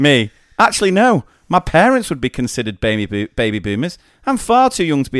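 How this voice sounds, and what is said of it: Usual voice. Nothing is said of it.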